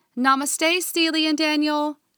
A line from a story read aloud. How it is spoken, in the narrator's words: Soren called out